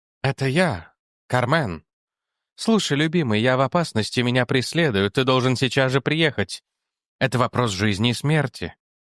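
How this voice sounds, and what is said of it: Soft gentle woman, slight foreign accent. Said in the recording (Russian): “женский голос, мягкий и ласковый, с легким иностранным акцентом”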